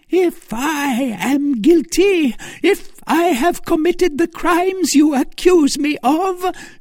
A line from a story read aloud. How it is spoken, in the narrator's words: shrieked Milady